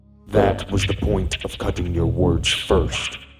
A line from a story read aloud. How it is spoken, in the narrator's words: Bishop yelled, his booming voice echoing in the room